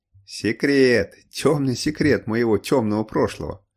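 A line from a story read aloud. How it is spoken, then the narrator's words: Laughing chuckle. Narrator (Russian): хохотнул капитан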